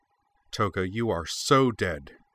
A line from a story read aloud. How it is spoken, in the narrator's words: she snarled, all her pent-up rage